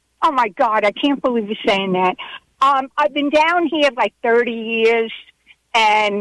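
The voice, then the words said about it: New York accent with Southern flair. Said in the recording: “I think you have a New York accent. ... It's New York with a little bit of Southern flair to it. You have a very interesting accent.”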